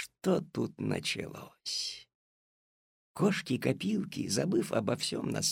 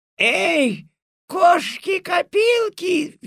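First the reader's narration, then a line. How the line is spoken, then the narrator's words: Furious yell. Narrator (Russian): в ярости завопила госпожа Жадность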